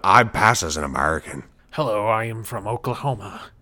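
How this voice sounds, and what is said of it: Liam Neeson faking an American accent. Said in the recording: “Liam Neeson trying to do his American accent.”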